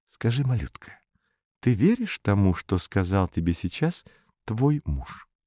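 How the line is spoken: Whispered question. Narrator (Russian): спросила шепотом

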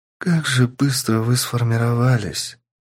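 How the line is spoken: Tender young woman's voice. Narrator (Russian): нежным голосом, сказала девушка

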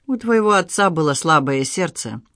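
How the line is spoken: Dry. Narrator (Russian): сухо сказал Егошин

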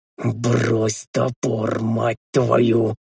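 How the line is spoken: Whispered bark. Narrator (Russian): Шепотом рявкнул я

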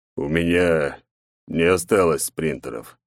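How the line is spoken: Sighing. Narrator (Russian): вздохнул он

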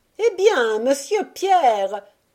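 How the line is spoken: Shouted from below. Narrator (French): cria Tabitha du bas de l'escalier

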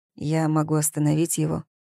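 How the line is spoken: Quiet, low voice. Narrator (Russian): сказал тихим, низким голосом Август

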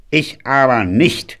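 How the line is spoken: Growling. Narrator (German): knurrte Grand Daddy

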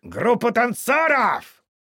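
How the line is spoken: Barked. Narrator (Russian): рявкнул М

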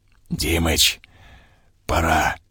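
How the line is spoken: Whisper in earpiece. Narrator (Russian): прорезался в ухе шепоток Ракитина

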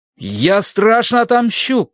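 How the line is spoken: Shouted. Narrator (Russian): крикнул я

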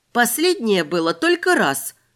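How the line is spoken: Exclaimed. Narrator (Russian): воскликнула я

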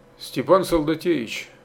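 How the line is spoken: Confiding tone. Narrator (Russian): доверительным тоном заговорил Белоцерковский

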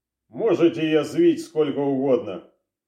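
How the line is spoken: Calm. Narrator (Russian): спокойно ответил сыщик

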